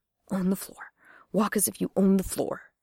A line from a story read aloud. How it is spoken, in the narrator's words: Jane heard her mutter